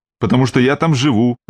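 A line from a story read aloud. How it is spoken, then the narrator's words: Snapped. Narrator (Russian): огрызнулась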